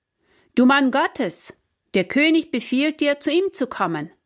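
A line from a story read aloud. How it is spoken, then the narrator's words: Calling out. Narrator (German): rief der Hauptmann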